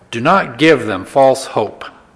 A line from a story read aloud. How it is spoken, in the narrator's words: said under his breath